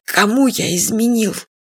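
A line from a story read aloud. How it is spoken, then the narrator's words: Hoarse tearful question. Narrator (Russian): Фадык сипло от слез спросил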